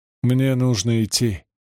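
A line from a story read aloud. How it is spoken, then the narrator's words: Sighed. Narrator (Russian): вздохнул Доусон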